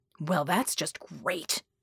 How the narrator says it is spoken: Red hissed

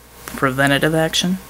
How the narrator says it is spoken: Bulwark asked dryly

